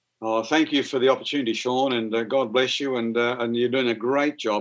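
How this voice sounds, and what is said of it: Australian accent. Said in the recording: “my Aussie accent ... Australian accents”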